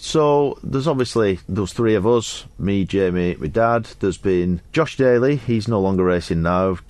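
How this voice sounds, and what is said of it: Slight Wigan English accent. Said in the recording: “you've got a slight accent. Where are you from? ... From Wigan.”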